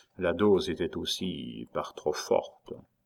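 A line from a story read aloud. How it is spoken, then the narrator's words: Doctor murmured. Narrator (French): murmura le médecin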